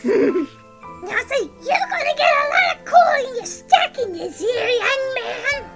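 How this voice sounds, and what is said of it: Very high-pitched mocking character voice. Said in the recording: “in a very high voice”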